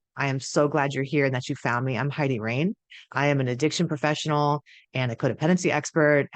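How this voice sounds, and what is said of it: Strange voice from being sick. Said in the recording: “I know my voice is a little sexier than usual. And by sexy, I mean strange. ... I am sick right now.”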